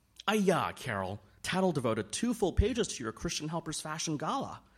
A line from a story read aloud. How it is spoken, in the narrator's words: Nadine exclaimed